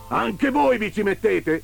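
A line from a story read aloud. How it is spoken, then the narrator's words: Threatening shout from window. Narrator (Italian): gridò minaccioso il signor Neri dalla finestra della camera da letto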